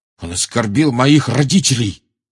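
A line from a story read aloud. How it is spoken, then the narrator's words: Angry growl. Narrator (Russian): прорычал Джордж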